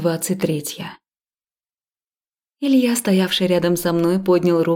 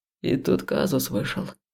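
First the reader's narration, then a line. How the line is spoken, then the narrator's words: Quiet, discreet. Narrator (Russian): тихо сказал Илья, не привлекая внимания окружающих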